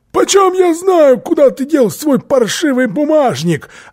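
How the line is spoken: Shouted. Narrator (Russian): Филли закричал

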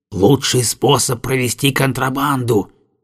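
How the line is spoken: Whisper. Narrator (Russian): шепнул Пантен

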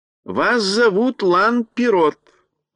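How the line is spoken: Plain. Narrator (Russian): сказал Страшила

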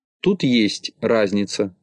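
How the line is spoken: Plain. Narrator (Russian): ответил Тюбик

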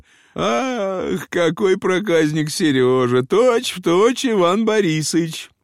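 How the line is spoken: Aunt laughing while speaking. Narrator (Russian): Тетушка очень смеялась и говорила

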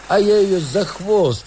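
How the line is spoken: Distant shout. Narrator (Russian): крикнул издали Сергей

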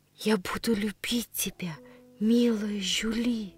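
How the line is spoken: Barely audible. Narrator (Russian): произнесла я чуть слышно

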